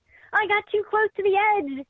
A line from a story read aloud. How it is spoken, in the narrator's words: he yelled